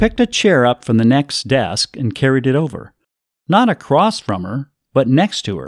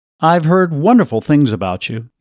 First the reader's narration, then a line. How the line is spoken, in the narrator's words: he said